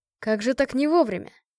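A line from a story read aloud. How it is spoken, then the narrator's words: Snorting. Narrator (Russian): Я хмыкнула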